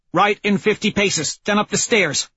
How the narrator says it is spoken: Holiday snaps

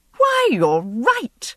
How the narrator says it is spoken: she exclaimed, much amused

